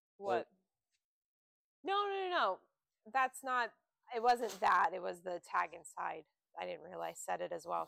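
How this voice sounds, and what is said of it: Hoarse, fading voice. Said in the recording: “I'm losing my voice... I need some tea.”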